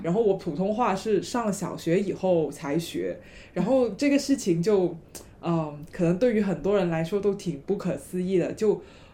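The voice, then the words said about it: Mandarin with strong Cantonese accent. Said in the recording (Chinese): “大家听我的普通话，就肯定能猜得出来我是哪里人，因为我的普通话有很浓的这个广东的口音”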